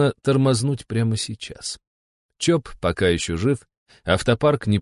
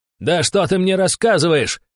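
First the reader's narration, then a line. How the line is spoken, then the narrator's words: Shouting. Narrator (Russian): орал барон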